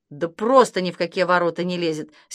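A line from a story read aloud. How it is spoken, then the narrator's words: Angry. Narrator (Russian): сердито сказал папа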